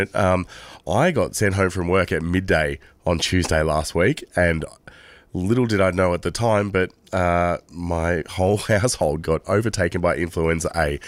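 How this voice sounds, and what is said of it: Sick, weakened voice. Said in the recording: “You can probably hear my voice is not as good as it should be”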